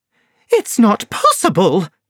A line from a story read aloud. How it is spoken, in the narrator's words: cried Laura Lyons angrily